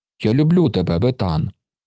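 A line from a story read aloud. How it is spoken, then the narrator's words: Small hoarse boy's voice. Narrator (Ukrainian): почув малий, хрипкий хлоп'ячий голос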